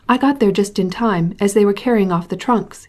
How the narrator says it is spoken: he exclaimed

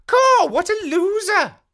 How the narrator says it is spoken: She exclaimed

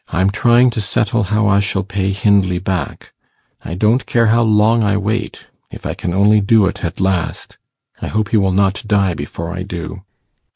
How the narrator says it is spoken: he answered gravely

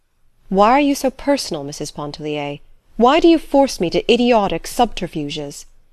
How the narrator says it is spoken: he exclaimed with sudden warmth

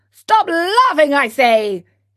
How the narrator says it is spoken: He roared in a voice of thunder

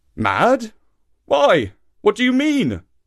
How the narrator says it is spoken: cried Papa

